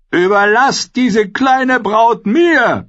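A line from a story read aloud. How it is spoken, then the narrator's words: Roar. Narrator (German): brüllte er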